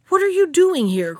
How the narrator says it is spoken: cried the bear

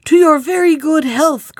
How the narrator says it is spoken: cried the shepherd

